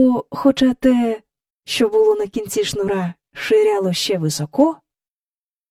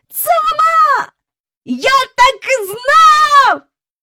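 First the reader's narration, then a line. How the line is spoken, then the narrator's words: Excited shouting. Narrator (Ukrainian): закричав Майкл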